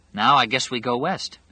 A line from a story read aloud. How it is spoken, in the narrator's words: Harold said